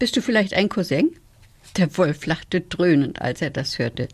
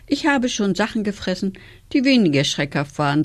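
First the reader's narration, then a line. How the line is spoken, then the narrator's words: Sigh. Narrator (German): seufzte er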